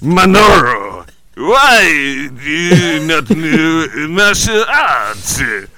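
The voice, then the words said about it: Put-on Japanese accent. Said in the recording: “in a Japanese accent”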